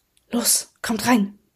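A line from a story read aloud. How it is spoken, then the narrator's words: Whisper. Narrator (German): flüsterte dann jedoch Miss Fieldman, Starlights Mutter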